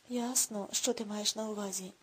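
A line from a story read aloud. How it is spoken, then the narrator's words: Sighing. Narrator (Ukrainian): зітхнув Рудольф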